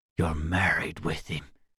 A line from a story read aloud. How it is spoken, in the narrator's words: said, despair reducing his voice to a whisper